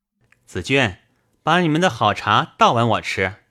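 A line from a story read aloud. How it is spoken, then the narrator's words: Laughing. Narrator (Chinese): 宝玉笑道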